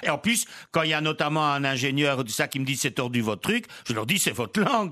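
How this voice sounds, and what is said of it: Belgian French accent, Brussels-tinged. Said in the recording (French): “vous êtes crédible avec votre accent ? ... je viens de Namur, mais je prends un peu l'accent bruxellois”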